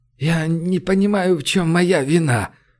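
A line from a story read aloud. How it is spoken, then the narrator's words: Weary repetition. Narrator (Russian): Устало повторил Румака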